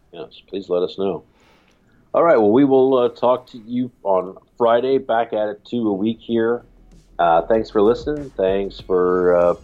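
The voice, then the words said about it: Coughing, deep raspy radio voice. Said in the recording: “my cough, my radio voice.”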